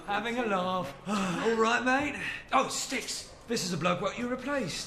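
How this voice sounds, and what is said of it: Put-on British accent. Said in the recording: “Why do you guys have British accents?”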